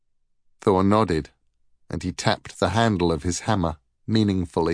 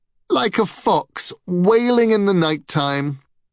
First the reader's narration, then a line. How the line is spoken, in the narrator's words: exclaimed Balder, stifling his laughter